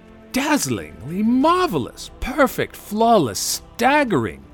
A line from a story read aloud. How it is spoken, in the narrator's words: exclaimed Bilbo aloud